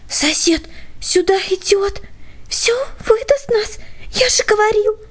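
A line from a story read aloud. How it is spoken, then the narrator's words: Whisper. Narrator (Russian): прошептал Петя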